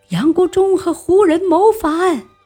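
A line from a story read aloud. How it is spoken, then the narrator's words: Soldiers shouting. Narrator (Chinese): 军士们就大叫起来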